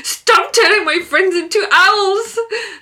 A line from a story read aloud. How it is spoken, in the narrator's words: Lucas is shouting